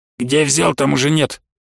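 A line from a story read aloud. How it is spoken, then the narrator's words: Grumbled. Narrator (Russian): проворчал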